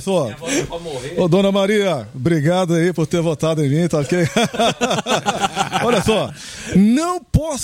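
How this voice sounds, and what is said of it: Imitates another person's voice. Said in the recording (Portuguese): “fala que é o Bolsonaro que tá ligando pra minha avó”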